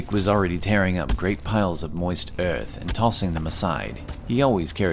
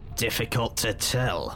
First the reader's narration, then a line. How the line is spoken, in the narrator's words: responded Dithkinir, his voice grinding